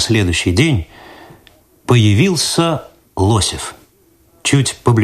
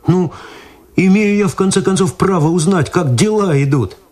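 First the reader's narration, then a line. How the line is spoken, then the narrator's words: Pleading. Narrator (Russian): взмолился Виталий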